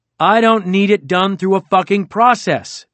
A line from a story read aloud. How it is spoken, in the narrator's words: Trump yelled